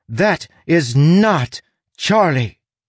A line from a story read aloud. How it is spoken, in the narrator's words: Full of electric defiance, Tress shouted